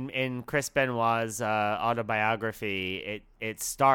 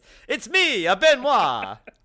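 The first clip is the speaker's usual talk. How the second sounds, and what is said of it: Put-on Italian accent. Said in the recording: “I don't know why he has an Italian accent”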